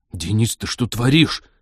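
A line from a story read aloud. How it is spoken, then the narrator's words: Hissed through gritted teeth. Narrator (Russian): сквозь зубы прошипел Станислав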